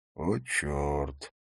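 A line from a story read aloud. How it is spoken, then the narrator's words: Quiet exclamation. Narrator (Russian): тихо произнес Харри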